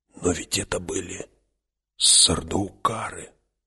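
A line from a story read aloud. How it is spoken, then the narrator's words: Stunned whisper. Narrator (Russian): Позади кто-то прошептал пораженный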